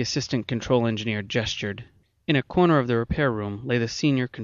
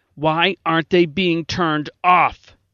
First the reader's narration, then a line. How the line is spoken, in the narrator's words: Gelson demanded angrily